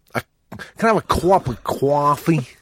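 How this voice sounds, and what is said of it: Put-on Italian-American accent. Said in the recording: “That was my Italian-American accent. I'm very good at it.”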